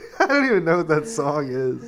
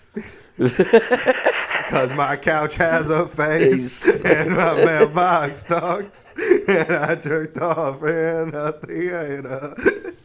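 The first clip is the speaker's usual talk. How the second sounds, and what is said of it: Sung imitation of a singer's voice. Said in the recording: “doing a pretty good impression ... That's like a great voice”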